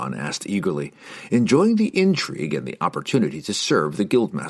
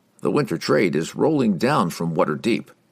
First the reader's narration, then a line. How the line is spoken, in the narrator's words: Oberon replied with a chuckle